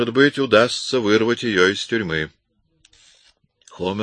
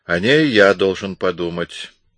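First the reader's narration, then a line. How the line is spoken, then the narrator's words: Plain. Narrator (Russian): сказал Эмис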